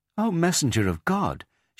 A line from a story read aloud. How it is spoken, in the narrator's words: she exclaimed